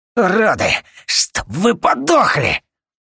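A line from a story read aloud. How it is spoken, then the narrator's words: Hoarse wheeze. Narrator (Russian): Просипел он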